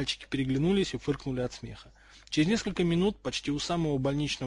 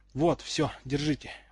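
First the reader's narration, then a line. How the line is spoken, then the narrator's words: Tired exhale. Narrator (Russian): выдохнул, устало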